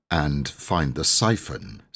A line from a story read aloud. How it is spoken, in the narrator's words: said Cyril gloomily